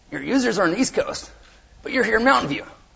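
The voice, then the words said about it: Uncanny imitation of another person's voice. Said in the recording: “my Paul Graham voice ... It's really good, by the way. The voice is uncanny. It's scary.”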